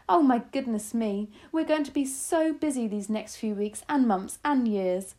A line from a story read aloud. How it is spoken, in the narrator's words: she cried